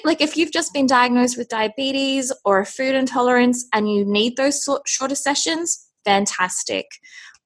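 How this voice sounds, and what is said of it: Australian accent. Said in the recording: “some people maybe could tell from your accent already, but you did mention that you're in Australia”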